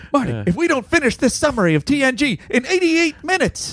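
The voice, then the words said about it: Poor Doc Brown character impression. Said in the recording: “That was possibly the worst Doc Brown impression of all time.”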